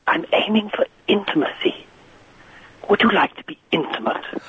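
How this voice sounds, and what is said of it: Whispering, intimate voice. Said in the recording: “Whispering”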